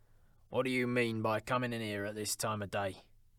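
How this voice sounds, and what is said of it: Growling voice as Scrooge. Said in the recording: “growled Scrooge in his accustomed voice, as near as he could feign it.”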